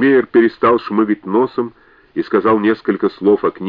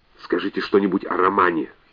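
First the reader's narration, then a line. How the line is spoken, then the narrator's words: Whisper. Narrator (Russian): шепнул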